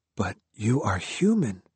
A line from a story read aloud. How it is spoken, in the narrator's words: he whispered